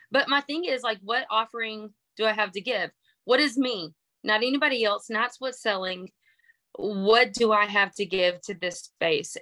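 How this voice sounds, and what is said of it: Twangy Texas Southern accent. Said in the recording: “I'm from Texas. If you can't hear the banjo sound in my voice. ... with that accent.”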